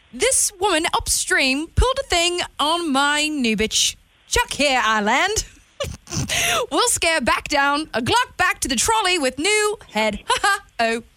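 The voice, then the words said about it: Attempted British accent, tipsy-sounding. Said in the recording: “pick an accent, any accent ... Horrible. I'm going to attempt, I guess, maybe British. ... Is that tipsy or toddler? ... tipsy ... is that pretty good British?”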